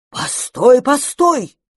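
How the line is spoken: Shouting. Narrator (Russian): закричал Мастерслав

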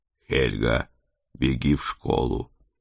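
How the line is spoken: Quiet request. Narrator (Russian): тихо попросил я

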